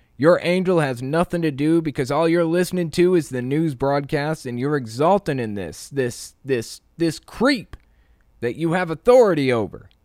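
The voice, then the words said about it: Imitates another person's accent. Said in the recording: “Am I getting the accent down? Am I completely fucking it up? I can't tell.”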